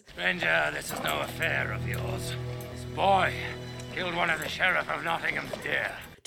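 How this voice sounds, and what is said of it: Cartoonish villain voice, dodgy accent. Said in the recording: “an even dodgier accent than Kevin Costner ... how cartoonishly villainish his bad guy voice is”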